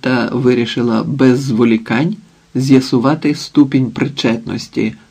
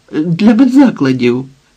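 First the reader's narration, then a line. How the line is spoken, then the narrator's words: Desperate exclamation. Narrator (Ukrainian): відчайдушно вигукнула Ліда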